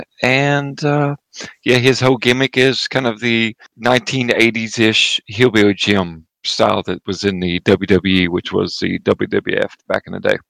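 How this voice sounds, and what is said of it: Eastern Kentucky accent. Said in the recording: “from the hills of Eastern Kentucky, so I don't have to do anything with my accent.”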